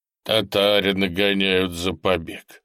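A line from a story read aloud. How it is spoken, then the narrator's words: Angry blacksmith. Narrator (Russian): сердито сказал кузнец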